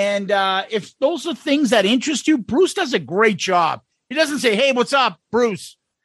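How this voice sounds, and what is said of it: Usual voice. Nothing is said of it.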